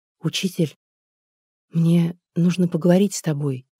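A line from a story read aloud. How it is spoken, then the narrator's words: Quiet speech. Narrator (Russian): тихо сказала она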